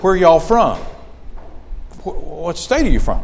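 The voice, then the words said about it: Southern mountain drawl. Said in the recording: “in typical mountain drawl”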